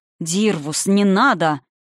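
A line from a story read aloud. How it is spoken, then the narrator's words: Angry king growl. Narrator (Russian): зло рыкнул великий король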